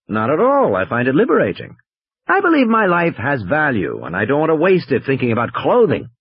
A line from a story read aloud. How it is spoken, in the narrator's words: Malcolm said